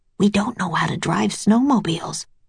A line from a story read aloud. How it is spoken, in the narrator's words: Jack whispered to Annie